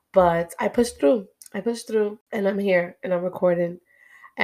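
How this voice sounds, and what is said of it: Deep, hoarse voice after illness. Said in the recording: “my voice is still kind of gone, but I kind of like my voice a little bassy ... it's a lot more bassier than this”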